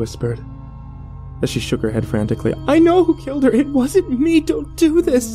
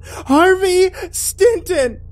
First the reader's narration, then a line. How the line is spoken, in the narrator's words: She shrieked at her ear-piercing pitch